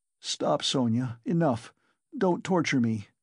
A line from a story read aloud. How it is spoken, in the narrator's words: begged her miserably